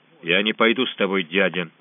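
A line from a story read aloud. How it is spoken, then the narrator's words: Calm. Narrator (Russian): спокойно сказал Гвалиор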